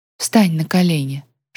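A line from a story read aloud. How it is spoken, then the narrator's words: Whispered. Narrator (Russian): шепнула Ян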